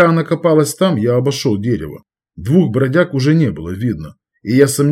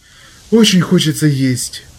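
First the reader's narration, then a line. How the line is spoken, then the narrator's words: Almost plaintive. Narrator (Russian): почти жалобно произнесла Аля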